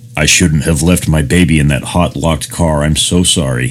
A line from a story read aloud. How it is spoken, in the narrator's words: he said